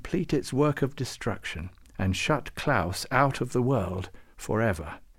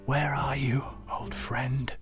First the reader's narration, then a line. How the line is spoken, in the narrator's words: Klaus whispered into the reindeer's ear again and again